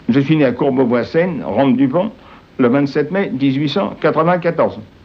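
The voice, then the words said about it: Parisian working-class French accent. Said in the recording (French): “Votre ton, vos manières, vos réactions, votre accent même, sont d'un parisien, mieux encore peut-être, d'un faubourien.”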